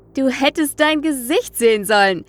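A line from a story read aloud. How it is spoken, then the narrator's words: Excited exclamation. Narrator (German): rief er begeistert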